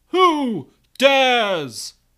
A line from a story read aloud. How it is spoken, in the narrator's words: the Phoenix bellows